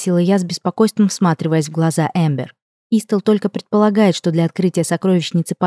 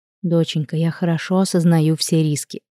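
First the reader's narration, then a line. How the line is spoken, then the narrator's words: Soft woman's reply. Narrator (Russian): мягко ответила женщина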